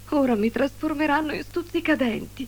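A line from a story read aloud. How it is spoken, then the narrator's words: Sad moaning. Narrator (Italian): gemeva tristemente Morinda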